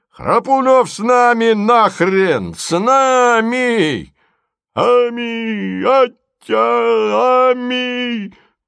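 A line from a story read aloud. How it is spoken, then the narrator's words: Crowd shouts, shrill laughter. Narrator (Russian): Бабы визгливо захохотали, а вокруг раздавалось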